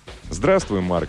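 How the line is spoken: Plain. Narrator (Russian): ответил парень

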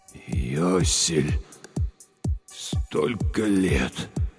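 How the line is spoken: Breathless exhale. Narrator (Russian): выдохнул он

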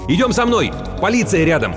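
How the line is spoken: Shouting out. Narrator (Russian): он все же выкрикнул

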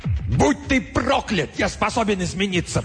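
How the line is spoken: Shouted. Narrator (Russian): прокричал он

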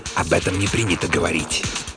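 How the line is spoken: Hiss. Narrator (Russian): прошипел

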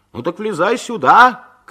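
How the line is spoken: Host shouting. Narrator (Russian): крикнул ведущий

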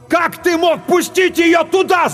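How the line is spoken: Yelling. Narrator (Russian): заорал Клайв

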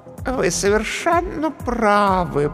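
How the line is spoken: Cooing. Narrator (Russian): проворковала комедия

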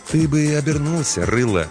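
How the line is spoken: Soft advising. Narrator (Russian): мягко посоветовал детине смотритель

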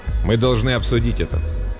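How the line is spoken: Cold. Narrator (Russian): Шивару холодно сказал

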